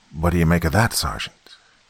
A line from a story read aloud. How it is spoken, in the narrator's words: whispered Deline